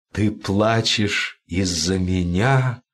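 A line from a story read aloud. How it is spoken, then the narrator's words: Whisper. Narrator (Russian): прошептал он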